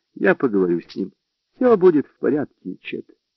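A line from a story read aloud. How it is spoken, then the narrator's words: Calm. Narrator (Russian): Лола спокойно сказала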